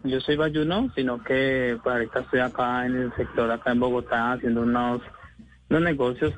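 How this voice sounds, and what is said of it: Slight Cali Colombian Spanish accent. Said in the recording (Spanish): “acento como caleño ... sí se siente un pues. poquito”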